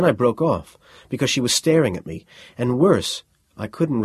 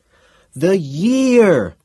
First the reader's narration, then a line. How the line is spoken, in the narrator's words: yelled